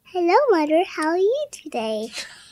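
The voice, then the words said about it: Imitates another person's voice. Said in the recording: “your Diana impression”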